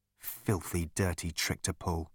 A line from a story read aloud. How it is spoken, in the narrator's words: muttered Arthur